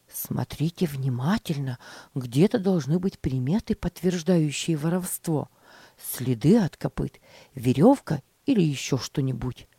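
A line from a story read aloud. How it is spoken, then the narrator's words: Whispering. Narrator (Russian): шептал мальчикам Джон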